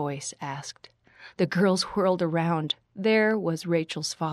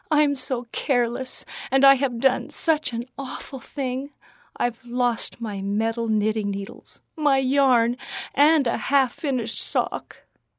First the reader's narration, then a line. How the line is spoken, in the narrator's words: Rachel sobbed